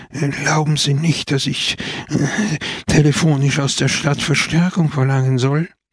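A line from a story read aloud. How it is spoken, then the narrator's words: Stuttering. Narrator (German): stotterte er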